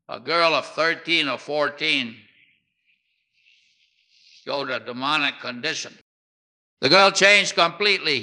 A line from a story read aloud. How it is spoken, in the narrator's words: said